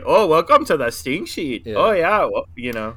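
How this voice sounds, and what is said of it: Canadian accent impression. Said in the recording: “you're Canadian ... you're doing an impression of me.”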